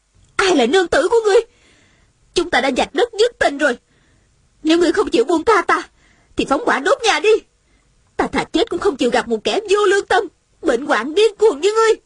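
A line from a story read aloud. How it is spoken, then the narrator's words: Angry woman. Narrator (Vietnamese): Nữ nhân trong nhà giận dữ nói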